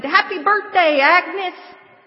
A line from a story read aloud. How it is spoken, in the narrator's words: we all jumped up and screamed